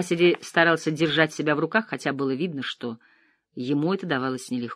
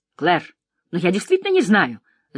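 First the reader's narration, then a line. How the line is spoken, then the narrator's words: Shouting, losing composure. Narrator (Russian): закричала она, не выдержав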